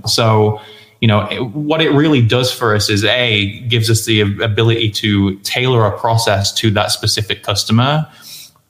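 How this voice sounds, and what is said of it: Speaks with a noticeable accent. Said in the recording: “it sounds better from you because of your accent”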